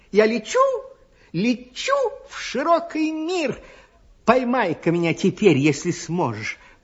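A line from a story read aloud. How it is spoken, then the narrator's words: Tiny squeak. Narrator (Russian): пискнула горошинка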